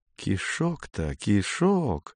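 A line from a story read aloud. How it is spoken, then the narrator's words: Muttered. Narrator (Russian): пробормотал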